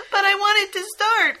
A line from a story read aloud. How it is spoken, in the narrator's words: Christine whimpered